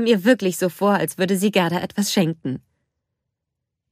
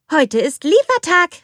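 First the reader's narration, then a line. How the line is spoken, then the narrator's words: Called out. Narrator (German): rief Anna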